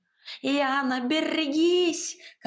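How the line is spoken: Frantic howl. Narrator (Russian): как ошпаренный взвыл кот

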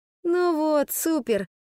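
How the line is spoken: Groaning. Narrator (Russian): простонала Ода

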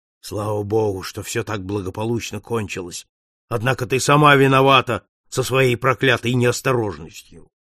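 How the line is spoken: Grumbling under breath. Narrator (Russian): волосатый продолжал ворчать в полголоса

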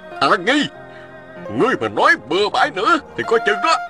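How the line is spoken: Angry scolding. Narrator (Vietnamese): Ôn Phương Thi giận dữ mắng

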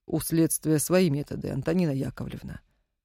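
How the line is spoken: Quiet, very calm. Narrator (Russian): негромко и очень спокойно произнес Наганов

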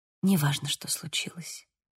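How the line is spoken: Whisper. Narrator (Russian): прошептала я

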